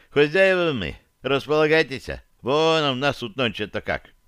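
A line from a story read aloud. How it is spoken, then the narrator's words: Sad. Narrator (Russian): добавил он печально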